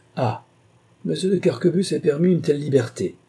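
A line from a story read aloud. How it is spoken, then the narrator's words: Exclaimed. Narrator (French): s'écria-t-il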